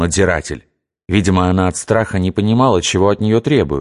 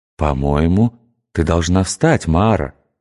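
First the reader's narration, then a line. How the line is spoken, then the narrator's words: Gentle. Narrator (Russian): мягко сказал Иосиф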